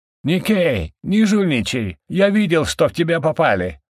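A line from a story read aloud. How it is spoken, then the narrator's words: Shouting. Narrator (Russian): кричал Карик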